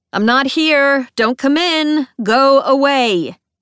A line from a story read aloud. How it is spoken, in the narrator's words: a voice yells from inside